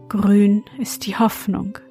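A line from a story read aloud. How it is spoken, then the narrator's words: Sighing. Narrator (German): sprach er seufzend zum Frosch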